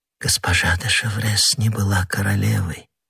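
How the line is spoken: Overwhelmed, moved whisper. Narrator (Russian): прошептала Анна Австрийская, не в силах устоять перед выражением такого глубокого чувства

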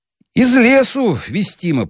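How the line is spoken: Low booming drone. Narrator (Russian): прогудел светленький

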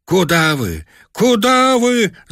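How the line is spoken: Shouting voices. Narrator (Russian): закричали мы

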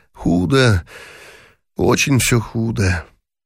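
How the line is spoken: Sighing. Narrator (Russian): вздохнул и сказал

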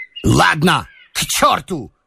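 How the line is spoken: Angry shout, feigned, embarrassed. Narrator (Russian): крикнул он сердито, но уже с долей притворства и смущения

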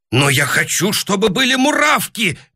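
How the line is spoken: Shouting. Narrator (Russian): крикнул Клопауций

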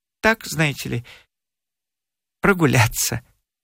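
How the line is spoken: Quiet, smiling. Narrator (Russian): Забешкин тихо улыбнулся и сказал

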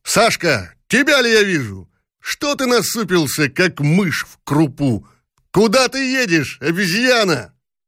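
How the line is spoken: Shouted. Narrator (Russian): крикнул

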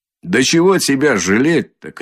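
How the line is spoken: Shouted. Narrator (Russian): крикнул хозяин

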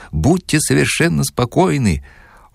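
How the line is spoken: Sweet giggle. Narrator (Russian): Он сладостно хихикнул

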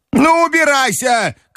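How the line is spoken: Grandmother shouting. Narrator (Russian): крикнула бабушка

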